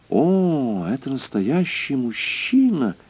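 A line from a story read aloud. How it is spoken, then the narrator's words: Crystal-clear voice. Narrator (Russian): Госпожа Мозес произнесла хрустальным голосом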